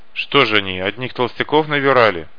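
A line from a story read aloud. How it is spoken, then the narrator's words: Scoffing snort. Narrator (Russian): хмыкнул Шрам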